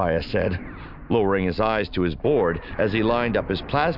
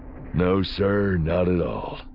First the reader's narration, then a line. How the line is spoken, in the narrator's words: he said evenly